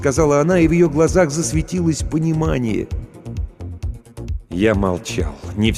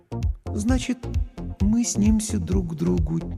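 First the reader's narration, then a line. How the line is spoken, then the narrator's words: Quiet repetition. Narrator (Russian): тихо повторила Лана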